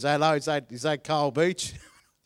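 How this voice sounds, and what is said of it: Put-on Australian Melbourne accent. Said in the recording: “this Australian guy ... I'm going to do an accent ... That's not bad, is it? That's Melbourne. It's very regionally sensitive, my accents.”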